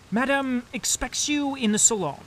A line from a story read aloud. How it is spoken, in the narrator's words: he cried